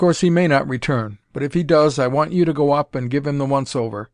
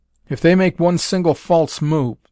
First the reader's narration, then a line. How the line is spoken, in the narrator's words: said Colonel Boynton savagely